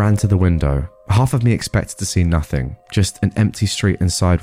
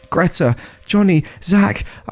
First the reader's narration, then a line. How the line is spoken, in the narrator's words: I shouted